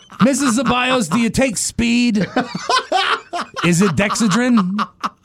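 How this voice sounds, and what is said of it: Larry King impression. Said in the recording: “my Larry King impression”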